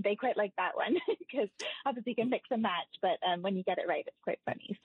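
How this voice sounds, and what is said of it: British accent, rather fast speech. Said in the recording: “you picked up some of that British accent and you speak rather quickly”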